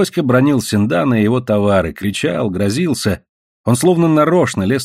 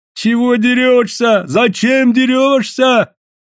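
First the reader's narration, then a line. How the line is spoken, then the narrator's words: Whiny offended shouting crowd. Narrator (Russian): Плаксиво с обидой кричали со всех сторон на торгаша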